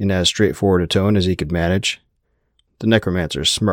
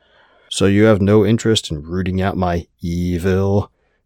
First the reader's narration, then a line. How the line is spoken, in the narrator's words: His voice dripped sarcasm as he said that